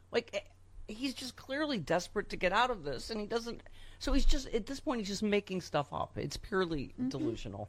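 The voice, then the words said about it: Slightly shaky voice. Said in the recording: “My voice is a little shaky”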